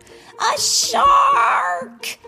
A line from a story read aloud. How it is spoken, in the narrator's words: He yelled hysterically